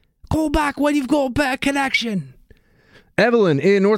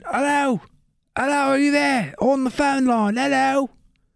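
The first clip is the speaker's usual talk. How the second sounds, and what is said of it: Put-on Cockney accent. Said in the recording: “I don't know why I got all Cockney accent all of a sudden”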